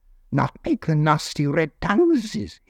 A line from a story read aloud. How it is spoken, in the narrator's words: hissed Gollum